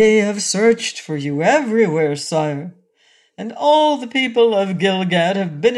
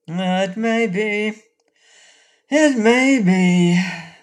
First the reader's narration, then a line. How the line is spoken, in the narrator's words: agreed Rinkitink sadly